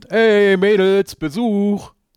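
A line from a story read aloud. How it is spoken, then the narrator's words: Calling out. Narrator (German): Semper ... ruft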